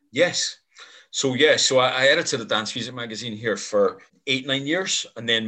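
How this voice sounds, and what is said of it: Irish accent with Scottish twang. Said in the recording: “your voice is so Scottish ... my accent is very muddled ... my accent sounds more Scottish than Irish these days ... it's an interesting twang though to your voice ... I can hear the Irish”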